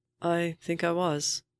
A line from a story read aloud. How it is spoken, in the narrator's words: the man says, and his voice is sad, gentle